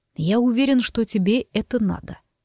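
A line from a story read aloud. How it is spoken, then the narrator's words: Calm objection. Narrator (Russian): совершенно спокойно возразил он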